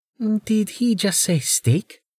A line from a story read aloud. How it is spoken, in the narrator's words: Amelia whispered